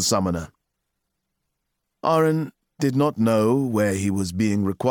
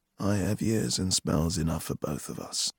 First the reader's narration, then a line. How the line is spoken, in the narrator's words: Sparrowhawk said in a dry voice